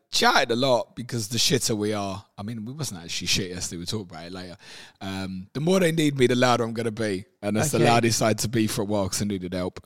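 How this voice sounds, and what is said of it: Slightly hoarse voice. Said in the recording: “I'm a little bit hoarse this morning. ... You went down Tottenham yesterday, shouted at them.”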